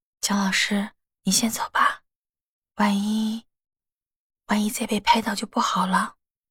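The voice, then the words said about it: Quiet, hushed speaking. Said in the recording (Chinese): “小声说”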